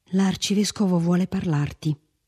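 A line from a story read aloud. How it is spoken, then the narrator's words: Whispered. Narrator (Italian): sussurrò Felipe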